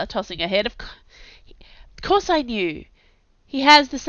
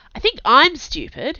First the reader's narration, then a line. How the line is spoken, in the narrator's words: said urgently